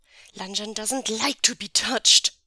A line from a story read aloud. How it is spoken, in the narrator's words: Wei Ying hisses